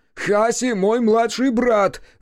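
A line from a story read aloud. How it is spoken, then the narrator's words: Repeated shout. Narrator (Russian): закричал Кику во второй раз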